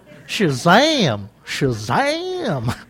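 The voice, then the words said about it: Put-on Southern US accent. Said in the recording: “talking southern”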